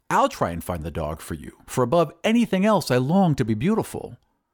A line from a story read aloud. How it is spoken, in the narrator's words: said the glassblower eagerly